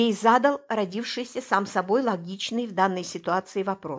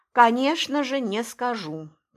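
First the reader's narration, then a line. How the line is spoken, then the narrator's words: Deep sigh. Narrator (Russian): произнес, глубоко вздохнув, Пестов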